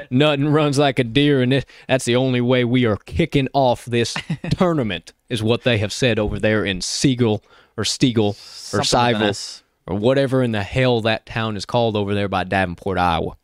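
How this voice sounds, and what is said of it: Put-on Southern country drawl. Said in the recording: “my country accent my southern drawl”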